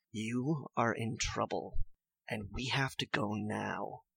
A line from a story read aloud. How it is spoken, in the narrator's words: he whispers to you